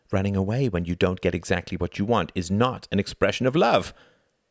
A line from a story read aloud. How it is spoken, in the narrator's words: cried, wriggling out of his embrace